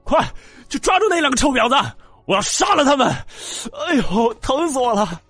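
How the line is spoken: Resentful roar from behind. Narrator (Chinese): 后面还传来小青年不甘的吼叫

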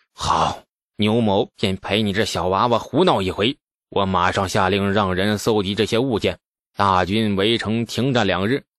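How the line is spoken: Grim, resolved. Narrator (Chinese): 牛进达犹豫半晌，终于狠狠一咬牙

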